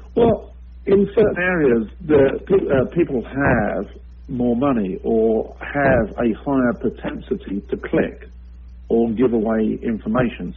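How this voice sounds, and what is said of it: European accent. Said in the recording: “I've actually worked both in Europe, as you can probably tell by my accent”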